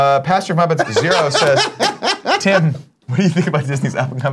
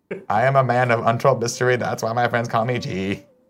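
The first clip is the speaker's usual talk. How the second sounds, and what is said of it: Bad impression of a TV villain. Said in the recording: “doing a Gus impression ... It's so bad.”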